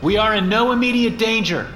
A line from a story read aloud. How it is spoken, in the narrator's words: I yelled over my shoulder